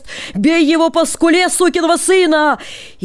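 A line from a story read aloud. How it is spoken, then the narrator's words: Shouting crowd. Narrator (Russian): полотеры кричали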